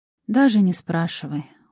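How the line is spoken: Tired request. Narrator (Russian): устало попросила я

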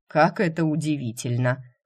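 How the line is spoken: Amused snort. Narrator (Russian): хмыкнул он

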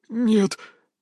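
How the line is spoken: Trembling, frightened voice. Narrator (Russian): дрожащим голосом ответил перепуганный тезка

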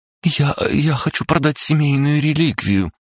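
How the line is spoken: Girl sobbing. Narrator (Russian): всхлипнула девушка

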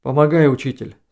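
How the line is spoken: Plain. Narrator (Russian): сказал Василенко

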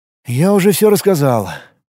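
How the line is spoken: Sorrowful sigh. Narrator (Russian): горестно вздохнул Сладченко

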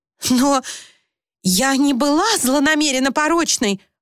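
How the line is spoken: Shocked exclamation. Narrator (Russian): воскликнула пораженная Люси

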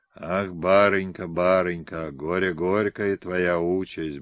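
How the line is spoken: Muttering. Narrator (Russian): бормотал он

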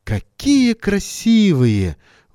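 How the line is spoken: Breathless admiration. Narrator (Russian): выдохнул Леня

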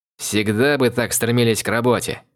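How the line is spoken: Wry snort. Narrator (Russian): хмыкнул Сэм

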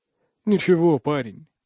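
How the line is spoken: Sad chuckle. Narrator (Russian): грустно усмехается

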